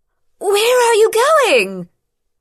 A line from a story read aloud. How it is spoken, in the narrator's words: She shouted after Rian, loudly enough to be heard despite the damage to their hearing